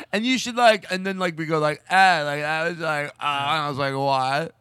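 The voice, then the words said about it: Imitates own rambling way of talking. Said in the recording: “a good impression of yourself”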